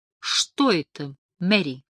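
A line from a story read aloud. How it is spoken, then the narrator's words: Forced calm question. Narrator (Russian): спокойно, как только мог, спросил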